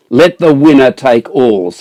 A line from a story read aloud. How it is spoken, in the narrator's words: shouted Goliath